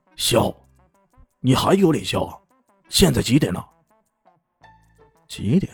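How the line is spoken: Angry roar. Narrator (Chinese): 狗经理大吼一声

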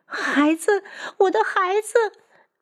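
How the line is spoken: Crying out in pain. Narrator (Chinese): 女子疼得眼泪都出来了，哭喊着

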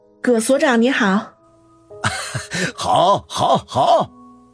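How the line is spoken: Smiling. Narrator (Chinese): 何梅微微一笑，说道

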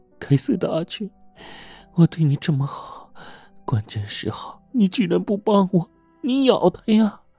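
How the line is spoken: Weak, feeble voice. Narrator (Chinese): 曾姨的挣扎是虚弱的，说话的声音也是虚弱的

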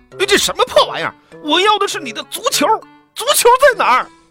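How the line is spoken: Angry shouting. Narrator (Chinese): 阿纳图尔气得，大声嚷嚷

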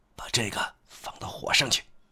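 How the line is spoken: Lowered voice. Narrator (Chinese): 他再压低声音说

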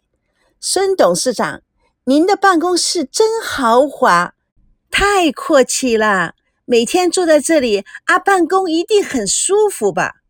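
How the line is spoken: Coy, gushing admiration. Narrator (Chinese): 娇声娇气赞叹不已

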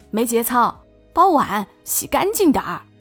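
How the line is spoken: Satisfied, smiling shout. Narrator (Chinese): 他又恢复了如常的满足笑容 冲我喊

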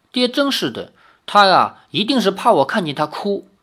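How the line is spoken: Sighing. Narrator (Chinese): 林月如叹了一口气，说

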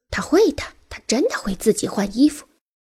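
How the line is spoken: Confident, cheerful retort. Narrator (Chinese): 另一个声音则颇有信心，愉快地回击说

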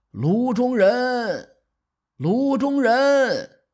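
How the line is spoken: Loud shout. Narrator (Chinese): 高声喊

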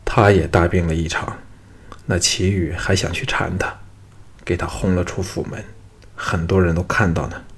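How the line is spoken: Sighing. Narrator (Chinese): 陶芳叹了一口气说

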